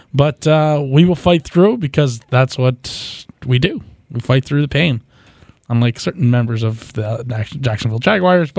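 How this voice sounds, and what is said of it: Slightly hoarse voice. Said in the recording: “My voice is a little hoarse today.”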